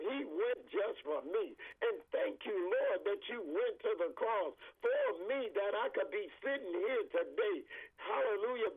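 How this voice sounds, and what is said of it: Excited, joyful speaking voice. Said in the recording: “I am so excited. I'm saved. I know you can hear it in my voice.”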